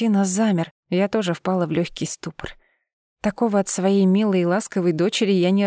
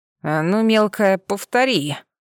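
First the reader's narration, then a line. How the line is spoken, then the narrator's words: Growled. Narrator (Russian): прорычал Миранец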